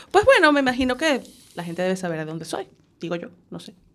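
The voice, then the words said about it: Peculiar, telenovela-like Spanish accent. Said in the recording (Spanish): “mi acento es como peculiar... tienes un acento peculiar... De telenovela”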